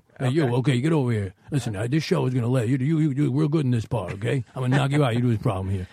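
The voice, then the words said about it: Imitates another person's voice. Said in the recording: “Tony Danza, I can do ... Yeah, that's pretty good.”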